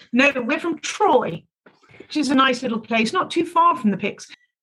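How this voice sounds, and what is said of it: British English accent. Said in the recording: “as you can tell by our accents, we're not actually from around here ... We are originally from the UK.”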